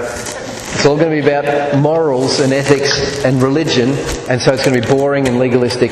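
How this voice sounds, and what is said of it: Australian accent. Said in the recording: “I'm speaking Australian.”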